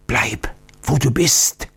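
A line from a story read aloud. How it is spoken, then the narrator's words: Old man's warning whisper. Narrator (German): flüsterte der alte Oktiondo warnend zu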